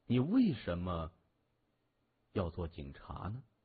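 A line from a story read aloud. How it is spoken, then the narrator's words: Comfortable sigh, asking. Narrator (Chinese): 他舒适的叹口气，一边喝酒，一边问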